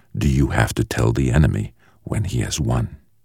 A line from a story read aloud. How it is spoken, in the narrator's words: asked the man, his voice soft and rasping